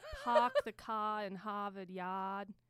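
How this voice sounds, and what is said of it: Bad put-on Boston accent. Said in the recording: “my Boston accent ... See, even that was bad.”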